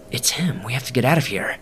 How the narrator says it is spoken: whispered

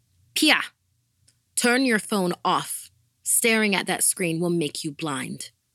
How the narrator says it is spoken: my mom would come in and shout

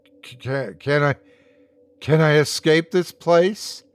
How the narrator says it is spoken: He sighed

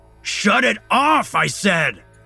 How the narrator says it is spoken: Alex shouts over the noise

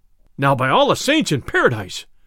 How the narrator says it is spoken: cried the sheriff

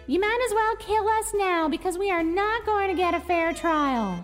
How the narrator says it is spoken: Susan shouted

